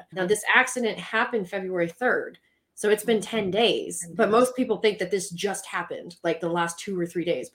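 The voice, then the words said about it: Southern American accent. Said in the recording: “my Southern accent ... I'm part like Pennsylvania Dutch and part South Mississippi”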